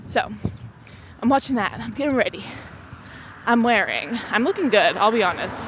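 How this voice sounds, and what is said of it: Breathless, out-of-breath speech. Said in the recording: “I'm like already out of breath because I'm talking so much and so aggressively this episode.”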